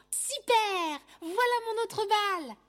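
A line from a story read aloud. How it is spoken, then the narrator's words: Child's joyful exclamation. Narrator (French): s'écrie joyeusement un enfant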